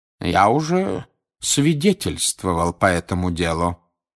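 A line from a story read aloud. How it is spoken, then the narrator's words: Calm. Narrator (Russian): спокойно сказал он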